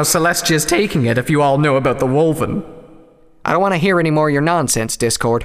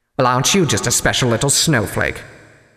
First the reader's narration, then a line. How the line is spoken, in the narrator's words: Discord muttered